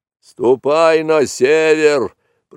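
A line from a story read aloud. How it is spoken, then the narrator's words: Angry bellow. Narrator (Russian): проревел сердито буйвол, потому что Маугли кольнул его довольно сильно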